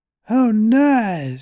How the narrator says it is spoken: she cried

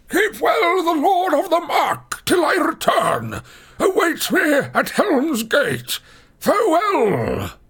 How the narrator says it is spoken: he cried

